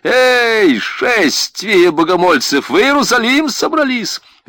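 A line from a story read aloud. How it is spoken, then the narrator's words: Shouted. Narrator (Russian): было крикнуто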